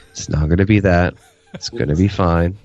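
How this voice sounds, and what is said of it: Quiet, low voice. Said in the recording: “talk to each other quietly in a low voice.”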